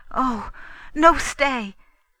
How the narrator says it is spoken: cried in the fawn's cry

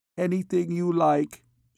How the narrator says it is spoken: she replied feebly

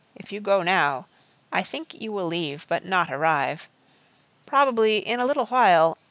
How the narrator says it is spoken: Merriman said gently

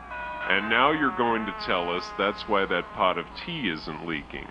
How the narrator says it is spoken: Sir Rufus scoffed

